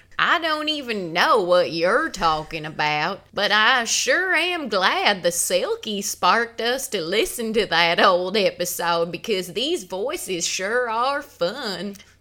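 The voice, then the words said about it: Put-on Southern Appalachian accent. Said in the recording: “talk like Southern Belles ... more like the Appalachian Mountain Kid accent”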